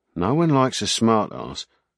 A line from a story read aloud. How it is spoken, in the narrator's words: Sparks muttered